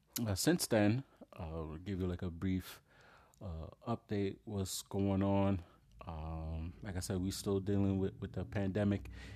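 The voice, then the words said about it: Deep, slightly funny sick voice. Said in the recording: “If you hear my voice a little funny, I got a cold ... I sound a little weird or my voice sound a little deep, a little Barry White sounding”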